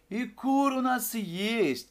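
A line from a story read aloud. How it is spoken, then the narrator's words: Shouting. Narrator (Russian): кричал Евлампина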